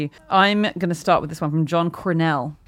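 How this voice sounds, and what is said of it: Put-on American accent. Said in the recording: “I said that with an American accent.”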